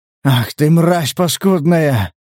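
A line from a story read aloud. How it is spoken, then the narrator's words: Breathed-out curse. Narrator (Russian): выдохнул Дикой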